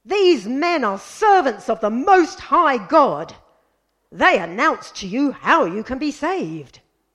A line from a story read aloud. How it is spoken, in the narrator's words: shouting